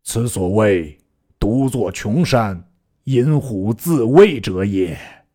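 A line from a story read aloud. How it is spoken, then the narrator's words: Sighing with heavy heart. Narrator (Chinese): 抚心而叹曰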